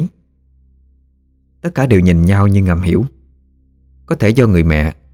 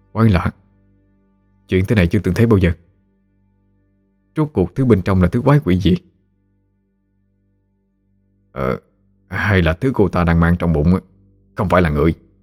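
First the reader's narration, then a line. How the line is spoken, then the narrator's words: Very soft. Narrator (Vietnamese): Tên Lùng khe khẽ nói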